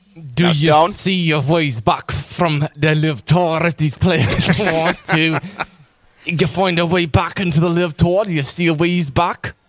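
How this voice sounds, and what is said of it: Bad put-on Scottish accent. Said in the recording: “trying to do his Scottish accent. It is terrible ... recite the question in your Scottish accent”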